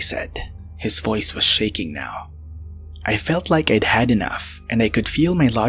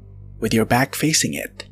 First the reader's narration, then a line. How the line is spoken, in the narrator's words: Trey said